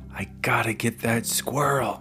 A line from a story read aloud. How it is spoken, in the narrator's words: he whispered to Justin